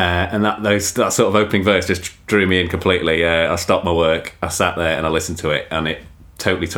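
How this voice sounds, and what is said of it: Usual voice. Nothing is said of it.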